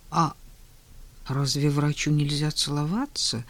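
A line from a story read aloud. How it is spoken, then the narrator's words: Murmured. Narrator (Russian): пробормотал Женя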